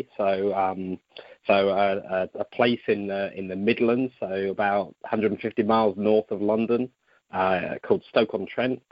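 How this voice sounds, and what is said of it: British English accent. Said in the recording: “as you can tell from my accent, although I don't think I have an accent ... I'm from the UK”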